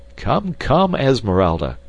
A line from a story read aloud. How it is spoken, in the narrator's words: cried Clayton